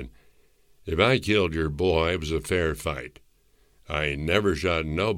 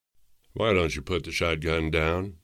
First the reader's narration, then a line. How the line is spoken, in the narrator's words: I said calmly